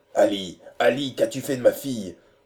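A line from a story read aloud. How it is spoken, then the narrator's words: Ringing loud question. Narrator (French): demanda Holker d'une voix éclatante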